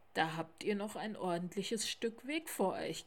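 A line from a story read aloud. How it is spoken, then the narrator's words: Owl's croak. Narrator (German): krächzte die Schneeeule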